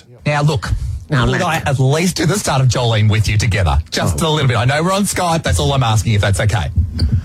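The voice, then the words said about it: Australian accent. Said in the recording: “You have such an accent, you know. You're very down under.”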